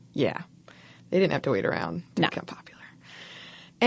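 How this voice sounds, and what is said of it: Usual voice. Nothing is said of it.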